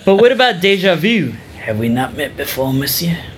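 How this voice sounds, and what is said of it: Put-on French accent. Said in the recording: “Your French accents are great.”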